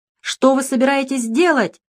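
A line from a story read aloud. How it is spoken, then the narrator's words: Shouting. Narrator (Russian): закричал Русаков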